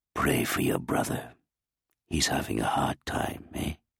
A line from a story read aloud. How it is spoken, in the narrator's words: Moshe whispered